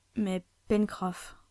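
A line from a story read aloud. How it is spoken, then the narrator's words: Plain. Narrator (French): demanda Ayrton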